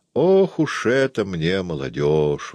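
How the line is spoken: Sighing. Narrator (Russian): вздохнула тетя

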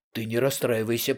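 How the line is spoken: Mumbled. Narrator (Russian): пробормотал Портос

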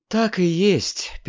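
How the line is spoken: Sad. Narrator (Russian): печально продолжала Диана

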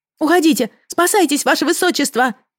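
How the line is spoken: Shouting. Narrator (Russian): закричала я

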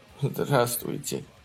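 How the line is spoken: Sobbing. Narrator (Russian): всхлипывая, произнес он

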